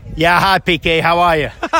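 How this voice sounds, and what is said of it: Deliberately bad Boston accent. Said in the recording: “that accent you may have guessed is from Boston ... it was me doing a very bad Boston accent”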